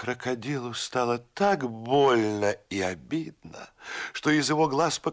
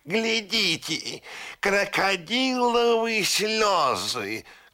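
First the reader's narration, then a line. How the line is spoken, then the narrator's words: Shouted by a parrot. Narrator (Russian): крикнул пестрый попугай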